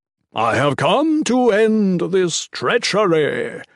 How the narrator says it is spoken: Mikik's voice boomed

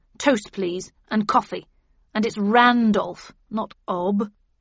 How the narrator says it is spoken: he growled

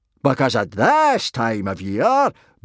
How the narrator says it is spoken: boomed Gobber happily

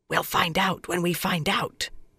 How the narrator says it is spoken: Swan whispered

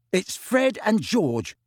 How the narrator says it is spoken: he said bitterly

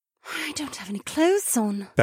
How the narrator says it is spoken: Becca muttered

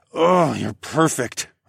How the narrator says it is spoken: moaned

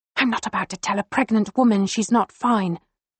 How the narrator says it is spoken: she hisses

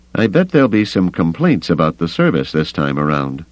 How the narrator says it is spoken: Avis said dryly

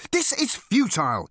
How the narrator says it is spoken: exclaimed

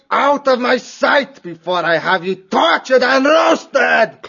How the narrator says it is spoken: Clooney roared at the unlucky pair

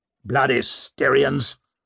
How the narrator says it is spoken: snarled Ruxted

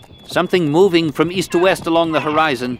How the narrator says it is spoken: Gyakta called out

